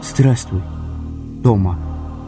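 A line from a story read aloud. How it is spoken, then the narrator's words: Trembling greeting. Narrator (Russian): поздоровался Асхар дрогнувшим голосом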